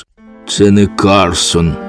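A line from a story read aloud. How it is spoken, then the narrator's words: Hollow muffled voice. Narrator (Ukrainian): озвався Карсон глухим голосом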